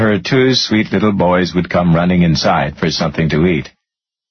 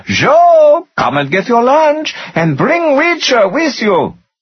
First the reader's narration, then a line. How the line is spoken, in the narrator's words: She would yell